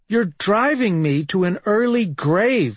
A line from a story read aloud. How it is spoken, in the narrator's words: yelled